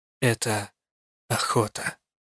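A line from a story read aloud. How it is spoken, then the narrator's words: Quiet. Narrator (Russian): тихо договорила я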